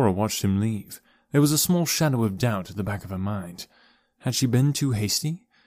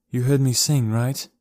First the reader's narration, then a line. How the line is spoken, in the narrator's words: asked, sighing